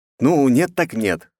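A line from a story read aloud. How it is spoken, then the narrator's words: Snorting. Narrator (Russian): хмыкнул я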